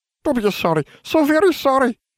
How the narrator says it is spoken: he cried

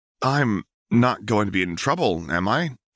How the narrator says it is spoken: Harry stammered, fighting tears

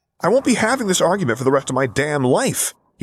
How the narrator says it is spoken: he snapped irritably

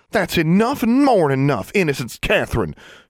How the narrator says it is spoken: she snapped

